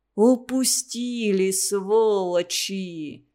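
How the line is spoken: Hissed. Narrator (Russian): снова Дутов прошипел

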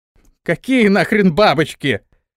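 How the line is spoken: Shouted again. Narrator (Russian): вновь закричал

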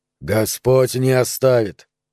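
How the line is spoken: Grim interruption. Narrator (Russian): мрачно перебил Андерсон

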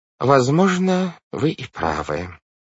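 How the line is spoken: Sighing. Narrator (Russian): вздохнув, сказал мистер По

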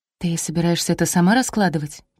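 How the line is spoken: Whispered. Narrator (Russian): прошептала Ляля

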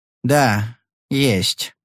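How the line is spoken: Hesitant reply. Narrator (Russian): неуверенно ответил адвокат

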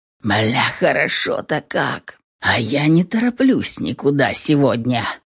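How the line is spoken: Grumbling reply. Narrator (Russian): Ответил ей ворчанием

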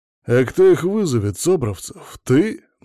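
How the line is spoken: Mocking question. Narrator (Russian): насмешливо спросил Сажин

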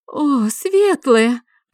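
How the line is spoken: Moaning. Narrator (Russian): простонала она

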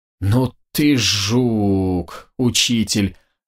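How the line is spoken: Surprised drawl. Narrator (Russian): протянула Елизавета, удивленно

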